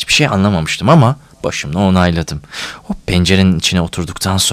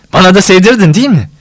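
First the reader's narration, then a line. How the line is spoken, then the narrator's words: Laughing. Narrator (Turkish): Gülerek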